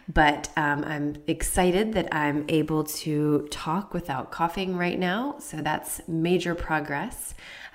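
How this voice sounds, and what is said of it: Labored, strained voice. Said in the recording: “My voice sounds a little labored, I'm sure, because I am recovering from weeks of suffering with COVID”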